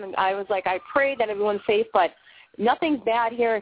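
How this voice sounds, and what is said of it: Bostonian accent. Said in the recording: “I do have that Bostonian accent”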